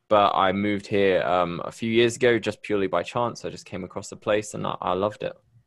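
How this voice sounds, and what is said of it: British accent. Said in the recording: “you've got that UK accent ... I'm originally from Bristol in the UK”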